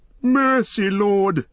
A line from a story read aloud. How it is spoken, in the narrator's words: whined Wormtongue